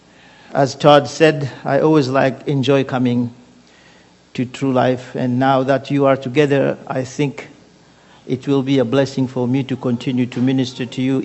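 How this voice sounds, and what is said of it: Congolese French-accented English. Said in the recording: “originally I am from Congo... You understand that from my accent. So I speak French”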